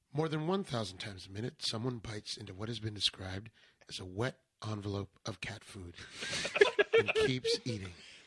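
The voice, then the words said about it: NPR-style radio news reading voice. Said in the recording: “Do you want me to read this in NPR style? ... Can you read it in a transatlantic accent? ... That's right on the money.”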